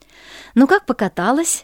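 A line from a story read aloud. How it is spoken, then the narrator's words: Cheerful mother asking. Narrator (Russian): весело спросила мама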